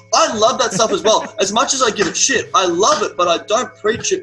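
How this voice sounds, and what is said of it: Australian accent. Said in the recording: “the word pussy in an Australian accent, just, it takes the edge off ... when you say it”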